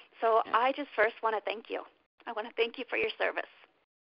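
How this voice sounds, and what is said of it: Emotional, choked-up voice. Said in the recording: “sorry, I got a little emotional on that one.”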